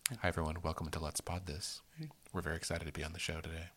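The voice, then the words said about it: Low, slow, sedate monotone voice. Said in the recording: “a very low monotone, slow ASMR type of podcast voice ... way too sedate ... sleepy”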